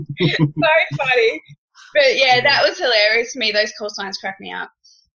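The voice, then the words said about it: Australian accent. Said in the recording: “we do it the opposite in Australia ... my accent most of the time ... just to hear me say something with my accent”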